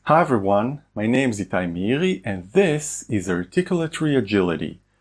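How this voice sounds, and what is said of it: Accented, deep, resonant, rich voice. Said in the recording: “they've got an accent, but what a great voice! What a natural resonant chasm. I can hear depth there ... that's why it sounds very beefy”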